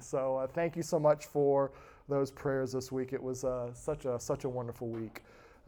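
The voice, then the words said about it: Slightly raspy voice. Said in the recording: “my voice is still recuperating from a week at camp. As you can hear, it's a little raspy”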